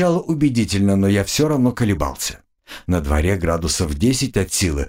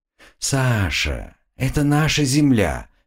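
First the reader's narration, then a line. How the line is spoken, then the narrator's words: Soft. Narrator (Russian): мягко произнес Слава 2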